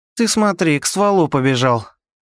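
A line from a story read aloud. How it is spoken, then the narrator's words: Smirking otter. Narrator (Russian): Хмыкнула выдра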